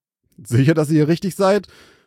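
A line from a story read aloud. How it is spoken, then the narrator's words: Called greeting. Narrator (German): rief er dem Trio zur Begrüßung zu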